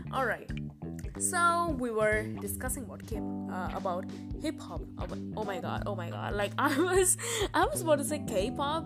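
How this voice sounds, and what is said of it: Non-native English accent. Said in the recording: “Sorry for my English ... this is actually my original accent”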